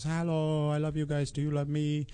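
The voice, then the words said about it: Accented voice speaking for dog. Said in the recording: “accent? ... We have her in that accent. ... Oh, you talk for the dog.”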